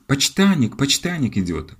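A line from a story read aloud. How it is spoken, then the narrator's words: Joyful announcement. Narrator (Russian): радостно возвестила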